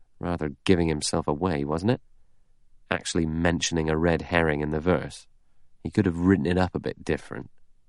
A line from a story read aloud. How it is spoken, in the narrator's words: Blore murmured